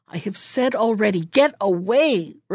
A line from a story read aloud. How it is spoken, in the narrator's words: replied Hannah, quite angrily